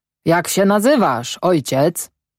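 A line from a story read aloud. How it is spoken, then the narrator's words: Cheerful deep German-accented shout. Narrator (Polish): wesoło krzyknął Knap, grubym głosem z silnym akcentem niemieckim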